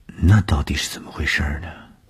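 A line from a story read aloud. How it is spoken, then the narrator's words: Shy murmur. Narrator (Chinese): 东风的脸上飞过红晕，喃喃地说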